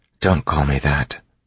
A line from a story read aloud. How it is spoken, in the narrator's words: Vin said quietly